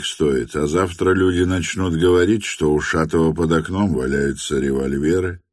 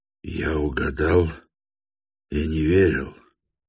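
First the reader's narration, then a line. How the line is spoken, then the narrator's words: Mutter. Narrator (Russian): пробормотал он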